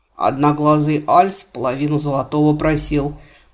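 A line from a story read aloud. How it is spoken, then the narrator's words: Low grumbling mutter. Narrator (Russian): пробурчал купец, заметно понизив голос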